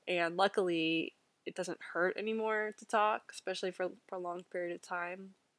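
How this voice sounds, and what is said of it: Sick, rough-sounding voice. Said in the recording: “I know my voice sounds messed up ... it doesn't sound great ... sounding weird ... this episode is gonna sound strange”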